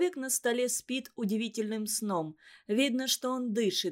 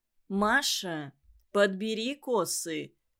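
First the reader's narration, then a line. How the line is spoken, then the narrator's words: Stern. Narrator (Russian): строго говорит ей Иван Иванович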